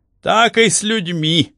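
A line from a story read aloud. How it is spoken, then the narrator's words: Official laughing loudly. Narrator (Russian): расхохотался номенклатор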